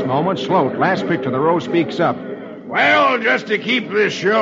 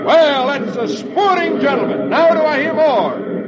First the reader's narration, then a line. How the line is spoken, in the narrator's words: Hoppy exclaims